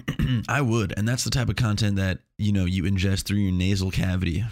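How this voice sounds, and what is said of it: Slightly congested voice. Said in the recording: “Do I sound a little congested? It's because I might be. I record these shortly after I wake up.”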